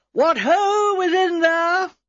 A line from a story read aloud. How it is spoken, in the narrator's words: She also called out in a stentorian voice